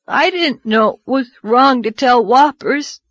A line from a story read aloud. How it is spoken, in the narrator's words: he sobbed